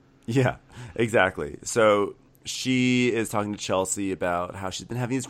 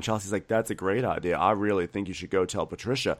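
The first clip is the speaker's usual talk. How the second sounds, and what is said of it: Sarcastic tone. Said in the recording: “I'm being sarcastic right now. Can you tell I'm being sarcastic?”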